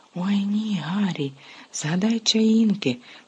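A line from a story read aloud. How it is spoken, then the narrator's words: Whispered in unison. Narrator (Ukrainian): прошепотіли Парваті і Лаванда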